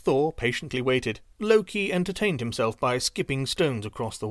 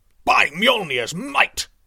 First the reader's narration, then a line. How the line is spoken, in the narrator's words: roared, struggling against the unseen force on the other end of the line